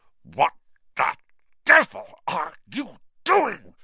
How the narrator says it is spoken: said Uncle Vernon through gritted teeth

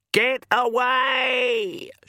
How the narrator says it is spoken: She screamed

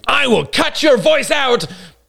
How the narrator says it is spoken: I screamed mentally

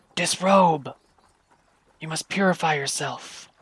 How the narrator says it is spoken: One of them whispers loudly

